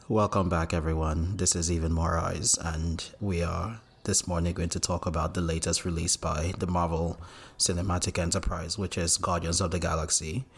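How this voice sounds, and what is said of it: Low, sultry bedroom voice. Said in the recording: “Your best bedroom voice... I chose to serenade you this morning instead of coming with excitement”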